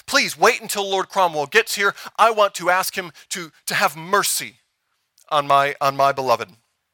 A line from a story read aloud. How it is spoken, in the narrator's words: She pleaded